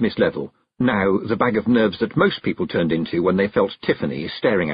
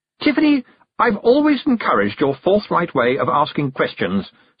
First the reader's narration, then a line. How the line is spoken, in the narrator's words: said Miss Tick loudly